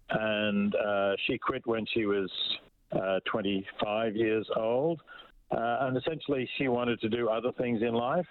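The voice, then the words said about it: Australian accent. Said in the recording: “As you can perhaps tell from my accent, I'm Australian”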